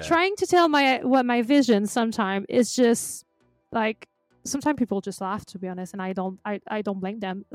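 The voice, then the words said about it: Unusual accent, neither French nor American. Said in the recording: “I learned to try to love my accent, even if it's weird ... you don't have a French accent. But you don't have an American accent. And I'm like, no, I have Celine Dion accent.”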